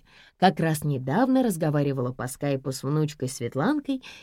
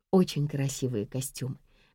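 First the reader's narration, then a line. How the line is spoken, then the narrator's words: Soft. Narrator (Russian): мягко сказала Надежда Николаевна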